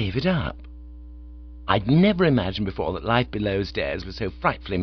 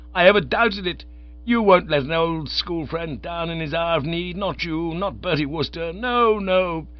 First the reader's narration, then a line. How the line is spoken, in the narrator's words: said Bingo with a scornful laugh